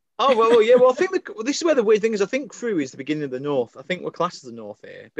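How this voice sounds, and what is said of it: Northern English accent. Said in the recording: “my northerners ... my accent sometimes sounds different ... if I'm down south, I'm definitely a northerner”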